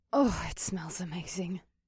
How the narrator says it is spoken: Mahini murmured

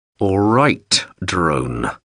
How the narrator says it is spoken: Hauser said through clenched teeth

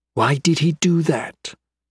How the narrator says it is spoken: Key asked quietly

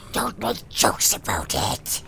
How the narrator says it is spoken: hissed Gollum

